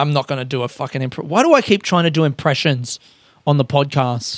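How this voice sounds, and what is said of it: Usual voice. Nothing is said of it.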